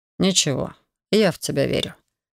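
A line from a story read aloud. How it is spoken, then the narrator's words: Calm. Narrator (Russian): спокойно проговорил Хантер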